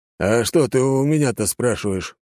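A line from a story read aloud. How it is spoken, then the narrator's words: Mock grumble. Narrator (Russian): проворчал Лажон, но больше для виду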